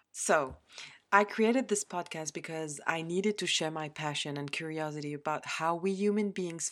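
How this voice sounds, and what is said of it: Non-native English accent. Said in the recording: “saying it slowly, otherwise I will not pronounce it properly. And as you can notice, my accent means that English is not my natural spoken language”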